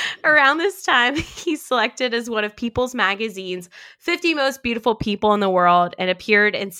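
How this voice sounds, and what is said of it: Usual voice. Nothing is said of it.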